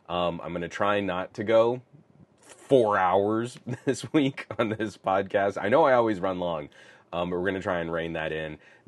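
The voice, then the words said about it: Slightly congested, stuffy voice. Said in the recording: “I got like a nasty little head cold ... it was a gnarly sinus head cold. You can still kind of hear it in my voice.”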